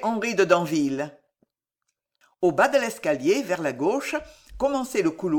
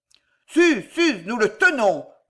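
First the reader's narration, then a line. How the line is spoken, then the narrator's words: Officer bellowing. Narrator (French): vociféra l'officier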